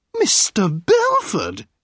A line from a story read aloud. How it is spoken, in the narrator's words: a sweet voice cried